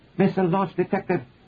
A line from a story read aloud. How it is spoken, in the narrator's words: the combat officer cried out